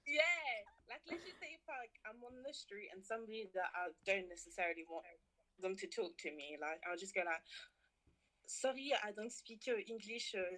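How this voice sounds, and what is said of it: London accent. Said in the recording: “Then you go back to your London accent.”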